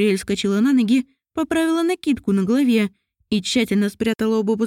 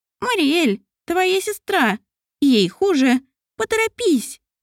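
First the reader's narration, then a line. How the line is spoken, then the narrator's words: Squeaky little voice. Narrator (Russian): пропищал голосок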